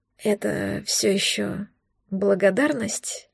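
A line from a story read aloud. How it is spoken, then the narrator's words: Hoarse question. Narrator (Russian): Хрипло спросил Дар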